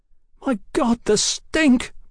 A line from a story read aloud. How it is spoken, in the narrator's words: Brian cried